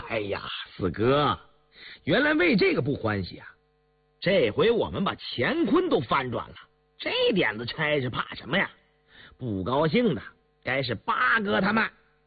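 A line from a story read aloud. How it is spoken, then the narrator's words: Laughing. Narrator (Chinese): 胤祥笑道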